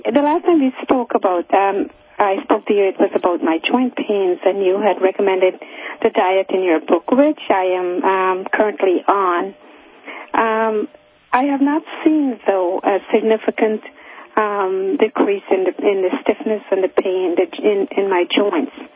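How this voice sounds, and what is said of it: Weak voice, fading in and out. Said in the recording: “I'm sorry if I fade in and out. I'm sort of losing my voice.”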